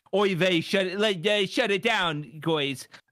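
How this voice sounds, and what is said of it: Put-on Jewish accent. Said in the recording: “I assume that's a Chinese accent... Yeah, it was Jewish.”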